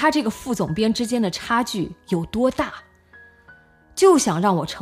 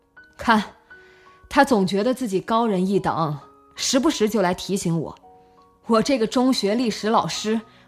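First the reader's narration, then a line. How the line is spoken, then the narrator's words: Smiling. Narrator (Chinese): 陈德飞笑了笑，也对宁轩说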